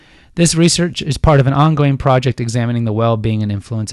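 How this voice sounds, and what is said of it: Usual voice. Nothing is said of it.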